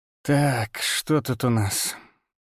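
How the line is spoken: Hoarse. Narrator (Russian): сказал хрипло

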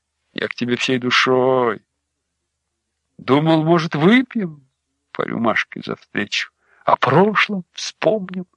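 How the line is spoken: Uncertain speech. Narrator (Russian): Дрист неуверенно сказал

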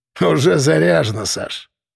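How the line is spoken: Snorting. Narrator (Russian): хмыкнул Кулебякин

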